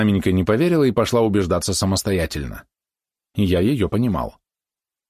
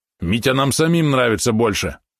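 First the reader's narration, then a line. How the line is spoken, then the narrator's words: Snapping retort. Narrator (Russian): огрызнулся Валерон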